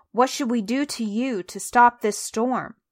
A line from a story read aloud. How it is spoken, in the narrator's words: they groaned, they asked him